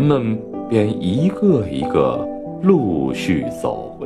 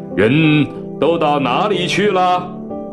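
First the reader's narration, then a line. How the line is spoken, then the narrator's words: Loud shouting. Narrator (Chinese): 先生在书房里便大叫起来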